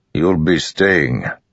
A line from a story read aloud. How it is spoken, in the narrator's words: Rock growled